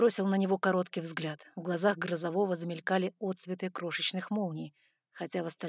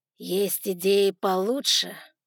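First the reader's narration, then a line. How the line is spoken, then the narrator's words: Plain. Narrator (Russian): спросил Лукас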